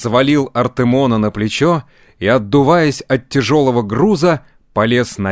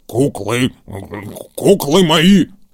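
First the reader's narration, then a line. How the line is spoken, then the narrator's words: Grumbled. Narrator (Russian): проворчал он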